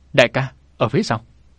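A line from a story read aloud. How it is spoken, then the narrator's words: Shout. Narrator (Vietnamese): Ngọc Hà hét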